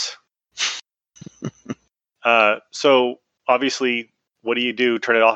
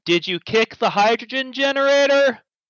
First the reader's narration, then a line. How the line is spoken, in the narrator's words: You very distantly hear me yell